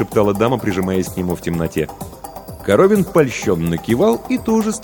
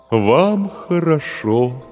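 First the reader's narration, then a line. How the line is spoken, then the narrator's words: Mournful voice. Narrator (Russian): заунывным голосом произнес терем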